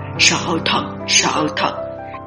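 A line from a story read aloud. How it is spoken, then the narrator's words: Muttered. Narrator (Vietnamese): Lý Liên Hoa lẩm bẩm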